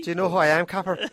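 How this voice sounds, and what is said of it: Put-on Irish accent. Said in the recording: “Do it with the Irish accent”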